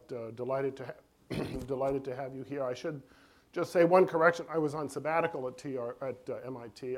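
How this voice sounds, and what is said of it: Voice affected by a cold. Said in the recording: “I'm fighting a cold a little bit”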